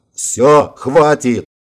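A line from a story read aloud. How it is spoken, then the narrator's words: Yelling. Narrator (Russian): заорал Вик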